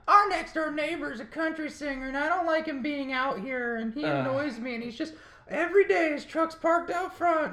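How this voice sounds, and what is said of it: Exaggerated mock girl voice. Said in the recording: “that's my girl voice ... that was very Monty Python”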